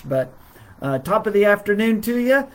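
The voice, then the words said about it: Weak put-on Irish accent. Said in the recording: “that's as much of the Irish accent as I can do. I'm sorry. ... she would say it sounds like something far different than that, but that's the best I can do”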